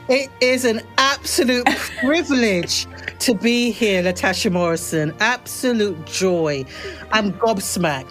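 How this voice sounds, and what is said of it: British accent. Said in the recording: “who is this black woman with a British accent? ... I knew you guys were going to pick up on the British accent”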